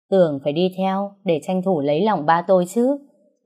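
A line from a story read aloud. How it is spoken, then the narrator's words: Very sarcastic. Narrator (Vietnamese): Phong nói với giọng hết sức mỉa mai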